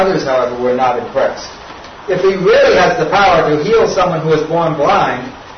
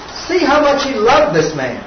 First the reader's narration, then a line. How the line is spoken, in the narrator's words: some of them exclaimed